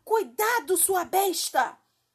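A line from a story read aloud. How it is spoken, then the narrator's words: Shout with Irish accent. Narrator (Portuguese): gritou uma voz com sotaque irlandês que pertencia à Barrica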